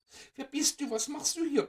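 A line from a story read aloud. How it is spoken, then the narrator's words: Excited overlapping squeaks. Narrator (German): piepsten die Mäuschen aufgeregt durcheinander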